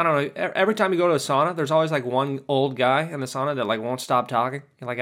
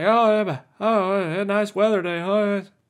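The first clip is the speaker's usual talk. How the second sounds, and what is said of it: Put-on foreign accent, old man. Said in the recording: “He's like not even from America, you know, he's got like an accent.”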